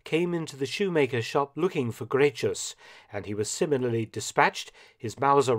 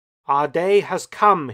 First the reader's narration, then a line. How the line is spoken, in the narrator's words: shouted